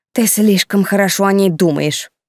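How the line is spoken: Irritated snort. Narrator (Russian): раздраженно фыркнула Тильда

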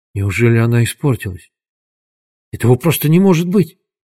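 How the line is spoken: Shocked whisper. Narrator (Russian): прошептал потрясенный Дуглас

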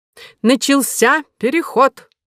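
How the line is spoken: Loud. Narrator (Russian): сказал Горбуз громко

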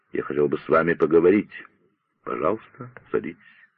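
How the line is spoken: Quiet. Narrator (Russian): негромко сказал

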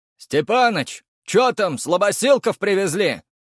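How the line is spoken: Distant shout. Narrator (Russian): выкрикнули со стены

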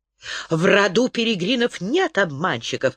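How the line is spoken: Shrieking. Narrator (Russian): завизжала Зарит

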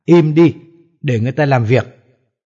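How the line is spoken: Old man scolding harshly. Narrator (Vietnamese): Ông già nghĩ mình đang gặp phải một tên tâm thần, cho nên nói giọng quát nạt

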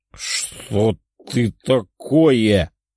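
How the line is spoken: Surprised mutter. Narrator (Russian): пробормотал он, не скрывая своего удивления

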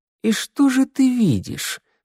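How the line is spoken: Insinuating inquiry. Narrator (Russian): вкрадчиво поинтересовался я

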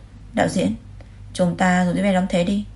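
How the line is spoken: Smiling. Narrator (Vietnamese): Lê Tinh Thành mỉm cười nói với đạo diễn

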